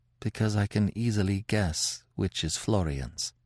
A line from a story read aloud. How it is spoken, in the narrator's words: She murmured, in a very low voice